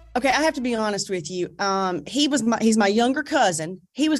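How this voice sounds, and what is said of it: Sweet Southern American accent. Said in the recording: “her sweet southern accent can calm a person's ADD ... I feel like I got to pull in that southern accent a little bit, but I can't. It's me.”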